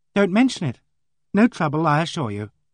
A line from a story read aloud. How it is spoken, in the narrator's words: she smiled kindly and said cheerfully